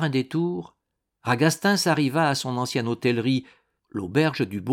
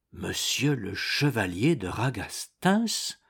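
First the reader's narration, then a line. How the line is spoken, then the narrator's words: Murmured. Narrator (French): murmura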